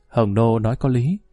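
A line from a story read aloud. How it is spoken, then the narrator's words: Giggling. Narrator (Vietnamese): Tần phu nhân cười khúc khích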